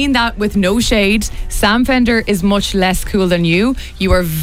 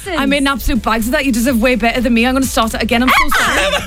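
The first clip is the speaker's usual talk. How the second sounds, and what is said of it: Put-on Geordie accent. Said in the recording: “With the Geordie accent. ... The Geordie accent is the toughest one to do. ... Unreal at that accent.”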